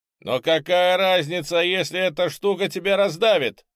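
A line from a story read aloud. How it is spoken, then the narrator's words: Shouting. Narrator (Russian): прокричал я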